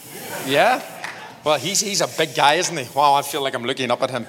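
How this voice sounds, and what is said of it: Irish accent. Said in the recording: “You like my accent? ... I'm like the wee Irish gnome”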